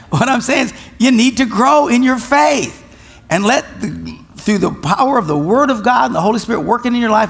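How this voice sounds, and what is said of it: Loud, forceful preaching voice. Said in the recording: “although I'm loud.”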